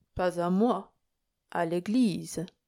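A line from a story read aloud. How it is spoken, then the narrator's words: Gentle priest remarking. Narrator (French): fit observer doucement le prêtre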